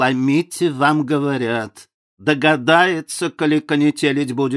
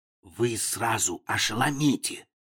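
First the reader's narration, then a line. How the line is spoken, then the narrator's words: Whispered. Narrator (Russian): шепнул ему Дюковский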